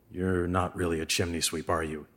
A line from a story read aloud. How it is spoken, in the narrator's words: Henry said quietly